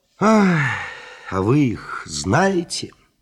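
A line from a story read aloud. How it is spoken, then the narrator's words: Sighing. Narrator (Russian): Остап даже вздохнул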